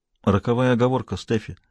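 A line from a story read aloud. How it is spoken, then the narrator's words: Quiet remark. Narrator (Russian): заметил он негромко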